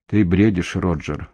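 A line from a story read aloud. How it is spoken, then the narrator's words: Gentle. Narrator (Russian): мягко сказал он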